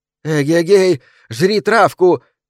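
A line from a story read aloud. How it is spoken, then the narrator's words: Shouting. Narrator (Russian): кричала она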